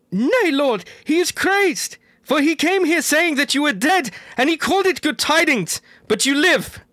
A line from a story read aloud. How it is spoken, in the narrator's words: the wife of Dorlas cried out